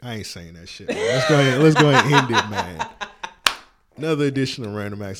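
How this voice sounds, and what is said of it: Usual voice. Nothing is said of it.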